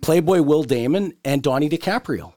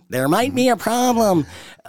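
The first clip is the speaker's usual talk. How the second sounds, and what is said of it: Imitates another person's voice. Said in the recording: “That's my imitation of Dirksen.”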